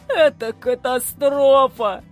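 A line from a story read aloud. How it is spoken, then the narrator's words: Groaning. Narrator (Russian): простонал Сидорчук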